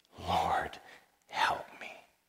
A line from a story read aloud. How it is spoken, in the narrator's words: pleaded